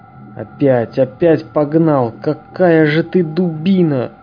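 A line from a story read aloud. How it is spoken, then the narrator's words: Disappointed moan. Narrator (Russian): разочарованно простонал Михаил Михайлович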